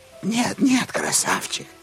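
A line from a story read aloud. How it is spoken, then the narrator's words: Cooing. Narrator (Russian): заворковала она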